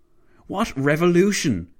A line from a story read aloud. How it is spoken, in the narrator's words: Clavel barked